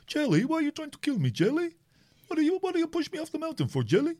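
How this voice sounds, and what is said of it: Imitates another person's voice. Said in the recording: “That's a great impression of Craner”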